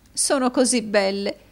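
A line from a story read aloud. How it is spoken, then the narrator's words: Sobbing. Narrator (Italian): disse la signora Kenwigs, singhiozzando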